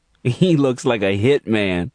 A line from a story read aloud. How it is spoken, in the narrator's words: giggled Kiara to Angel